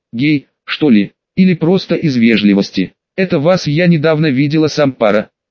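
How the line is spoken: Plain question. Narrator (Russian): спросила она

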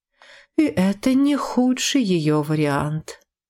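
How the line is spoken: Ghost sighing wistfully. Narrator (Russian): вздохнул призрак, вспоминая о судьбе остальных

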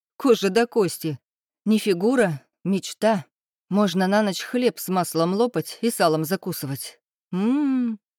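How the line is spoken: Laughing. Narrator (Russian): Ольга засмеялась

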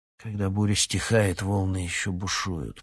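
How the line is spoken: Muttered. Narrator (Russian): пробормотал Пьетюр

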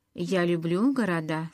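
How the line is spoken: Plain. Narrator (Russian): сказала Кэт

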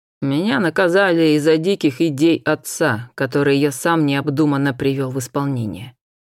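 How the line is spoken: Rude curt snap. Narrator (Russian): грубо отрезал

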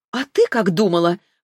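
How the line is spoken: Loud careless exclamation. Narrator (Russian): воскликнула, не заботясь о громкости голоса

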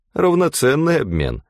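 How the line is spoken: Laughing. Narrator (Russian): рассмеялась она

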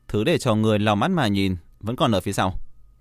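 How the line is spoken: Cold. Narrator (Vietnamese): Diệp Viễn lạnh lùng mở miệng nói

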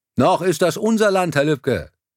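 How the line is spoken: Blustering. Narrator (German): polterte die Rechtsaußenpartei

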